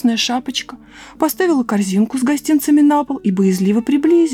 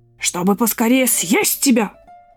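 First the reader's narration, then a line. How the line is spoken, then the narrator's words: Growl. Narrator (Russian): прорычал волк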